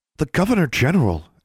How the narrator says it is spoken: Anna exclaimed

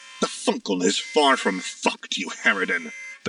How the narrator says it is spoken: the captain snarled

